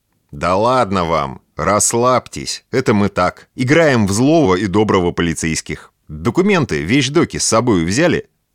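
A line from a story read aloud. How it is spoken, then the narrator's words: Calm, man. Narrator (Russian): спокойным тоном заговорил мужчина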